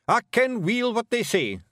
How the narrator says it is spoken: snapped Rob Anybody

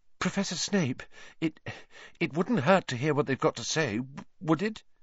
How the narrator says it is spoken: said, in a very breathless voice

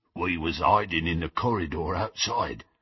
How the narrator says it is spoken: grunted Goyle

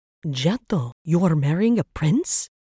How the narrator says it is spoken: Rita gasped

